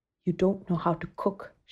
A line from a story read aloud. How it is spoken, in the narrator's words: she whispered